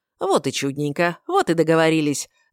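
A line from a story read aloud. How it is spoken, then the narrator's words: Joyful blurt. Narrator (Russian): радостно выпалил король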